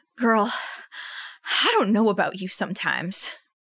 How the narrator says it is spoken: Kiki says through several long wheezes

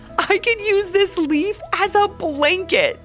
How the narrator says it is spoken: giggled Cassidy

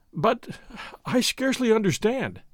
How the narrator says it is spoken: Don Diego gasped

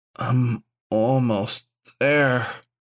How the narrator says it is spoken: Gawain moaned

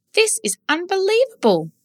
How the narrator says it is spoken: she exclaimed

